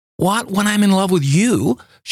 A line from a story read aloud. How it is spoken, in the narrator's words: She cried reproachfully